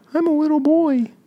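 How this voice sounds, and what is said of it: High-pitched baby voice. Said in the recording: “Can you do a baby voice? ... I'm having a hard time projecting a baby voice.”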